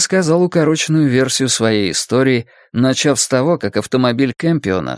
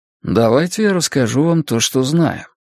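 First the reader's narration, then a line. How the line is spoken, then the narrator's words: Calm. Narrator (Russian): спокойно предложил Стью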